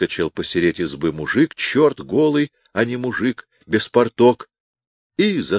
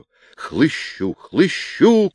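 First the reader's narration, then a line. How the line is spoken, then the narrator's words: Shouting. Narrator (Russian): кричал он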